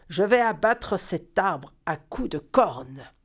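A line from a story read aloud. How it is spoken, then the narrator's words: Giant bison's growl. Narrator (French): a grogné le bison géant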